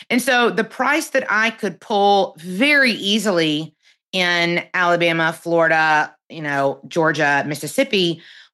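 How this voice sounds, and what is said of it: Southern US accent. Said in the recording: “I'm sure you're shocked by my very totally Northeastern accent. I live in the deep South”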